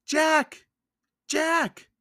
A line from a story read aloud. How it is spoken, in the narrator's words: cried Annie